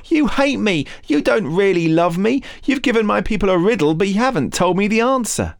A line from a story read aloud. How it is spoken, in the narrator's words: Samson's wife sobbing